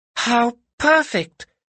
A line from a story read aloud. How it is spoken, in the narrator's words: cried Cat